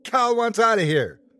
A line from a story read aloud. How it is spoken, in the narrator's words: the man who, at one point, shouted